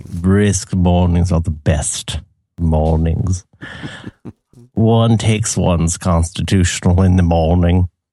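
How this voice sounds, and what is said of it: Put-on posh English accent. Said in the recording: “both being Englishmen at the club”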